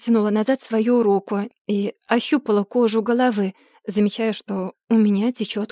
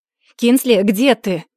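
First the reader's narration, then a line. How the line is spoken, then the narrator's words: Sharp question. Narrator (Russian): снова спросил он резким тоном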